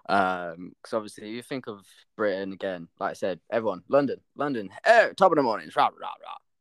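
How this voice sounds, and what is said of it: Yorkshire accent. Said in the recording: “being from Yorkshire, I'm very proud of like representing my accent.”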